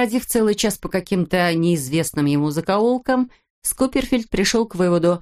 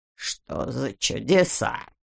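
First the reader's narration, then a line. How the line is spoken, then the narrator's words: Bewildered mutter. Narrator (Russian): пробормотал Скуперфильд, протирая глаза и чувствуя, что у него начинает заходить ум за разум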